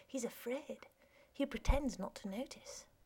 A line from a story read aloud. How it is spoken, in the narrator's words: Eugene said quietly